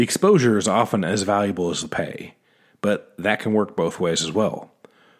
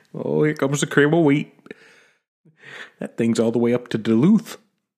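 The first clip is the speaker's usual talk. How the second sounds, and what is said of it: Put-on Minnesota accent. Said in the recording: “that Minnesota accent”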